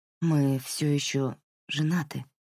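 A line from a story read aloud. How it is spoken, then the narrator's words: Quiet reply. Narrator (Russian): тихо ответила Марин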